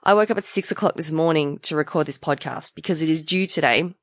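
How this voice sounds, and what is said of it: Croaky voice. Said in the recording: “My voice is pretty croaky. You might hear that my voice is pretty croaky.”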